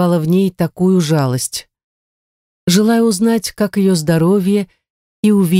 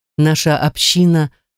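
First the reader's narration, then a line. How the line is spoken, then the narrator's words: Plain. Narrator (Russian): сказала она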